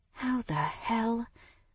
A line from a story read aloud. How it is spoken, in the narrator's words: I muttered under my breath